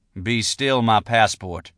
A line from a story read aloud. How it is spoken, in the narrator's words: I said, shaking my head sadly